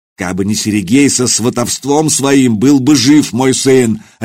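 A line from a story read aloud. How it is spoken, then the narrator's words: Barked. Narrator (Russian): рявкнул он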